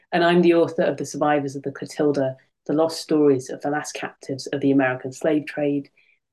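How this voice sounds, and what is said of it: British accent. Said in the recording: “a British historian, as you can probably tell from my accent.”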